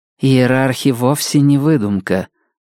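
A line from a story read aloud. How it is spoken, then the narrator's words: Grim objection. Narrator (Russian): мрачно возразила Зида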